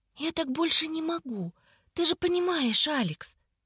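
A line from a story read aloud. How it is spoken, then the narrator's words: Tender tremulous whisper. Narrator (Russian): шептала она нежно и трепетно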